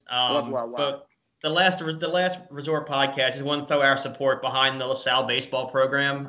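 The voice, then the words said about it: Philadelphia accent. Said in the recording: “I can tell by your accent ... I'm from Delaware County, just south of Philadelphia”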